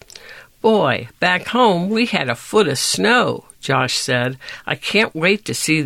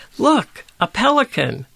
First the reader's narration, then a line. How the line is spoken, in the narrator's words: Josh cried